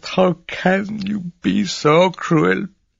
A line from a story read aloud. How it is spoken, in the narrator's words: groaned at last